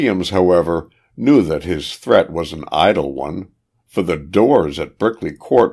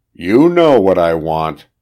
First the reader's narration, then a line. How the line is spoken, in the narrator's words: growled Owen